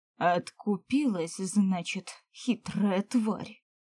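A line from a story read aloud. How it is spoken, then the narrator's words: Growl. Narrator (Russian): рыкнул Эолин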